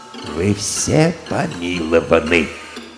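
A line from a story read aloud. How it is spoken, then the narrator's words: Timid quiet voice. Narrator (Russian): король, обратившись к арестованным, нагнувшись и робко озираясь кругом, тихонько проговорил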